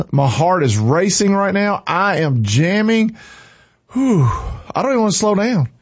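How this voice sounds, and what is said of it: Out of breath, excited speech. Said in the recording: “I'm out of breath. ... I am out of breath.”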